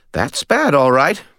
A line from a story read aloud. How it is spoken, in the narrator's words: Bob said cheerfully